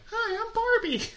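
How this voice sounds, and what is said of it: Weird Barbie doll voice. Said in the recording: “a weird voice coming from my chest”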